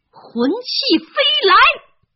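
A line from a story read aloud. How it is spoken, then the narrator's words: Throat cleared, loud. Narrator (Chinese): 哈利清了清嗓子，大声地说着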